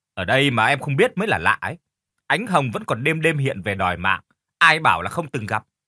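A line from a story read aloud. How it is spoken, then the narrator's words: Scoffing sneer. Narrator (Vietnamese): Cô ta cười khẩy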